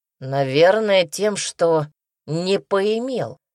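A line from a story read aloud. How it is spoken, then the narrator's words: Gloomy. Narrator (Russian): мрачно ответил он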